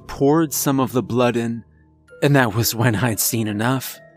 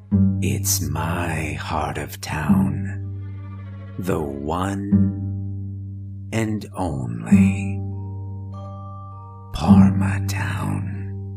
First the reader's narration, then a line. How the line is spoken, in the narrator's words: I hear a faint voice whispering